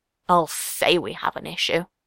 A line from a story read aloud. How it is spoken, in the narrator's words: Yasop muttered